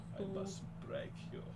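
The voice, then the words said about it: Deep, serious Russian Ivan Drago voice. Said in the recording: “with that kind of voice going deeper, sounding still nondescript European, you make it more Russian, and you make it deeper, more serious, and then you've got Ivan Drago.”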